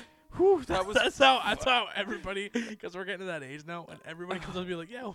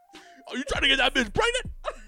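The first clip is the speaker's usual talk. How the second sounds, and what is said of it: Poor Tracy Morgan impression. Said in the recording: “That's a horrible Tracy Morgan impression.”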